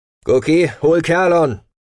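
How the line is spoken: Shouted. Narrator (German): rief er dem Mausbiber zu

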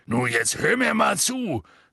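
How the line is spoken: Angry speech. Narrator (German): sagte Hagrid zornig

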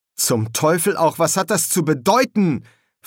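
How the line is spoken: Sharp question. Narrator (German): fragte Newt scharf

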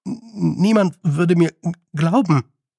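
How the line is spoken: Stammered. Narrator (German): stammelte

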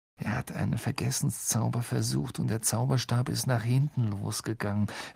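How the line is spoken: Quiet explanation. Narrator (German): erklärte Ron leise

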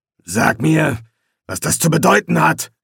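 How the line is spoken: Growling. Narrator (German): knurrte er

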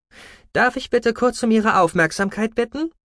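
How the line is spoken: Quiet but carrying voice. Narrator (German): Sie sprach nicht laut, dennoch trug ihre Stimme weit

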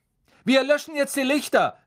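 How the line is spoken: Called out. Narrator (German): rief Percy

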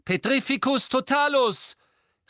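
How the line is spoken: Calling out. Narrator (German): rief Harry

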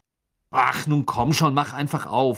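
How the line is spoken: Angry. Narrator (German): sagte er wütend

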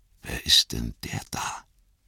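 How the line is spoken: Whispering. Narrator (German): flüsterte Frodo

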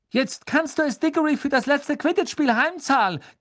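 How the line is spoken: Shrieking. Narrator (German): kreischte Katie Bell, ebenfalls eine Gryffindor-Jägerin

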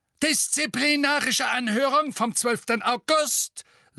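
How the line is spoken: Shrill voice. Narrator (German): sagte Fudge mit schriller Stimme

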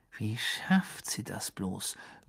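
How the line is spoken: Muttering. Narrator (German): murmelte Ron eines Abends Harry zu

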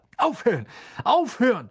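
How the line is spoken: Seller shouting. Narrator (German): rief der Verkäufer

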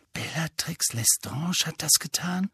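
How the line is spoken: Horrified whisper. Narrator (German): flüsterte Hermine entsetzt

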